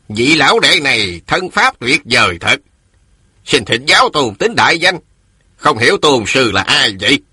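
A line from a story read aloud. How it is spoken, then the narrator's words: Old man, sneering. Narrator (Vietnamese): Ông lão cười khẩy rồi nói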